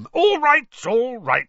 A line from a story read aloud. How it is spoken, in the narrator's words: said Uncle Vernon loudly